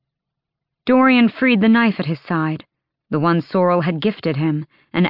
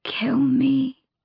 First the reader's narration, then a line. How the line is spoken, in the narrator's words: she breathed